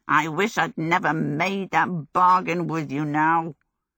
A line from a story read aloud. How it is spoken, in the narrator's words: Calcifer, cowering at the back of the grate, muttered